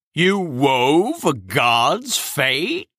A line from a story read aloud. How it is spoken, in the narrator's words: Cronus asked in a mortified tone